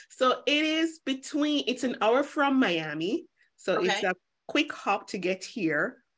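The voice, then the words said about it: Jamaican accent. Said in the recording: “if you hear an accent, I'm Jamaican by birth, but I currently live in the Cayman Islands”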